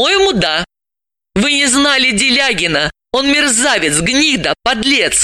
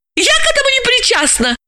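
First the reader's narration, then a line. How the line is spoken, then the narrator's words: Frightened squeal. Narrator (Russian): испуганно взвизгнула Яна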